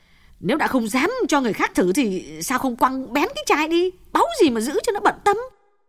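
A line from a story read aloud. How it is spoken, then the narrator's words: Snapping irritably. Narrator (Vietnamese): Như lại gắt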